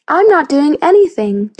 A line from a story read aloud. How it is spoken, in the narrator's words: Jamie snapped back